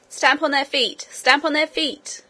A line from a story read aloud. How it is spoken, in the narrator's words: he shouted